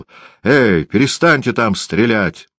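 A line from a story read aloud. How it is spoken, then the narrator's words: Full-lung shout. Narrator (Russian): крикнул во всю силу своих легких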